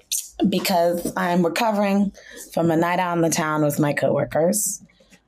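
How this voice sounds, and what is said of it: Extra raspy voice. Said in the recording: “My voice is extra raspy”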